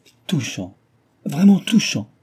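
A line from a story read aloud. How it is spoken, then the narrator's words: Exclaiming, loudly blowing nose. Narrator (French): s'écria Mademoiselle Davin en se mouchant avec fracas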